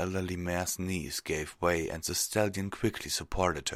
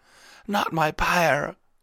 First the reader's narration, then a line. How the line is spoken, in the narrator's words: she wailed